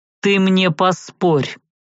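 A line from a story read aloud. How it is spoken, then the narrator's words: Growling. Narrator (Russian): рыкнул магистр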